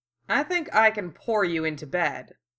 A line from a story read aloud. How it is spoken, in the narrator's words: Sano said dryly